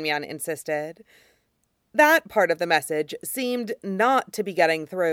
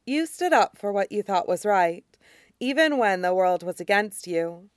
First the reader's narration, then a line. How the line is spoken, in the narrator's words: Chinsu said, calmly, implacable as a glacier